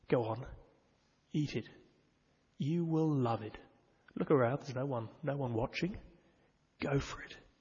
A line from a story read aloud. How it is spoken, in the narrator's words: the serpent at her side whispering